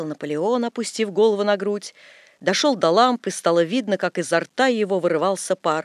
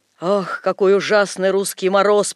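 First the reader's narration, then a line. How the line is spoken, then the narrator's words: Hoarse. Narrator (Russian): прохрипел он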